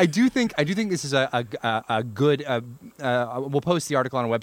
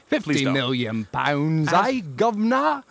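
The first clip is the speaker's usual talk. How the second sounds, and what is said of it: Put-on British accent. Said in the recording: “Do I have to do it in a British accent?”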